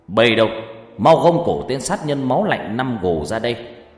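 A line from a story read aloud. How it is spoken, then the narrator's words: Official's sudden shout. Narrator (Vietnamese): Quan bỗng hét lớn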